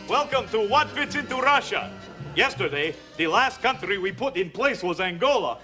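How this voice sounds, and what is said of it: Bad put-on Russian accent. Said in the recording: “putting on a bad Russian accent”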